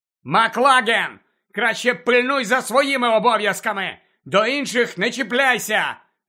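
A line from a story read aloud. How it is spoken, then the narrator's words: Shouted. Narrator (Ukrainian): закричав Гаррі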